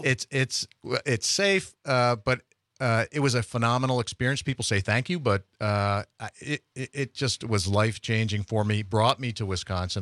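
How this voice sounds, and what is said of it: Slight Pennsylvania Dutch accent, rounded O's. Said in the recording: “a little bit of a Pennsylvania Dutch accent ... I round the O's a little bit”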